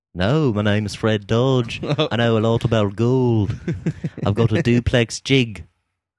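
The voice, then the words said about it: Put-on comic character voice. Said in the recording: “That's the Fred Dodge voice that we'll do. That's my impression.”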